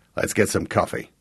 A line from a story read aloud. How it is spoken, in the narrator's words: grunted